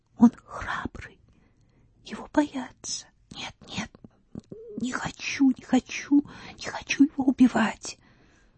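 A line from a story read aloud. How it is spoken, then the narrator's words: Barely audible whisper. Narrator (Russian): шептала девушка едва слышно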